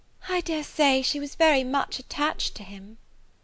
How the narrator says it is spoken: returned Harriet, sighing again

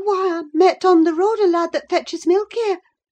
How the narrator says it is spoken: stammered

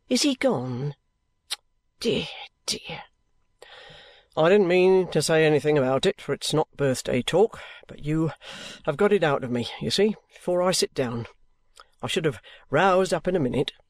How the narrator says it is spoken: says the trooper, making himself speak more gaily

